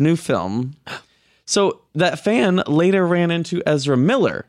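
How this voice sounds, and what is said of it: Usual voice. Nothing is said of it.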